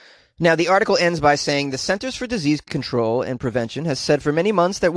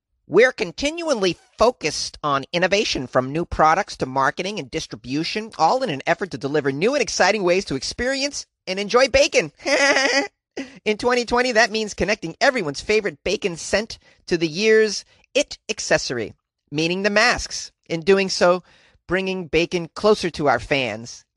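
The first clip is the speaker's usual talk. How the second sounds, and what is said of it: Impression of a bacon factory worker. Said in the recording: “That was my impression of a guy who works at a bacon factory or whatever.”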